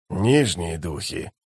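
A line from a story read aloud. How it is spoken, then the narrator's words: Hissing. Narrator (Russian): прошипел Бальд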